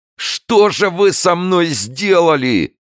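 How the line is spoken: Sobbing shout. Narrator (Russian): кричал с рыданием стрелок

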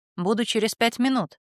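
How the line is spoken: Plain. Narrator (Russian): сказал я

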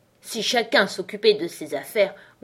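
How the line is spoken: Hoarse grumbling. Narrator (French): grommela la duchesse d'une voix rauque

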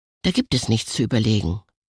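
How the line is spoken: Plain. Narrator (German): antwortete Fabian

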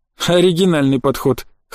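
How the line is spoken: Curious snort. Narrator (Russian): хмыкнул князь с любопытством

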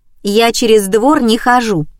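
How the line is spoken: Laughing neighbor. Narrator (Russian): засмеялась соседка

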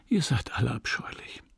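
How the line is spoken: Wistful breathy whisper. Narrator (German): mit wehmütiger Geste hauchte

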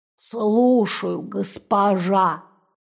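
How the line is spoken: Toothless mumble. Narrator (Russian): печь прошамкала

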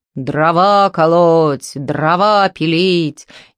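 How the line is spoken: Deep-voiced sudden shout. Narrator (Russian): Вдруг кто-то басом как закричит

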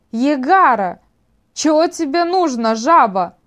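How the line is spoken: Loud call. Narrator (Russian): громко окликнул Касаис

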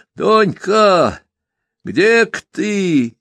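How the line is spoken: Hoarse shout. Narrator (Russian): сипло крикнул Яшка

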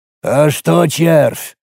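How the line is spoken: Forced out, hesitant. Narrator (Russian): наконец выдавил

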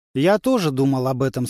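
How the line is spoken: Plain. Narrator (Russian): сказал Модиба Тумани

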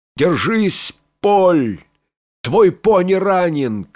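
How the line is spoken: Shouting. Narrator (Russian): крикнул Сорвиголова

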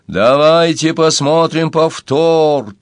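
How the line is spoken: Triumphant yell in his head. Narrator (Russian): торжествующе завопил у него в голове Уорнер Вульф

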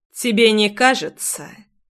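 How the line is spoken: Cold smiling tone. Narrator (Russian): Холодно улыбнулся он

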